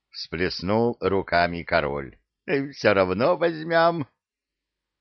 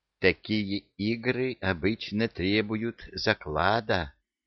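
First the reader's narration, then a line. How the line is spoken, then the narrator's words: Insinuating whisper. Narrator (Russian): вкрадчиво прошептал Илюша Амар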